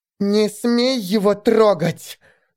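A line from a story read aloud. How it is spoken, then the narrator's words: Angry hiss. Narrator (Russian): Зло прошипела Элфи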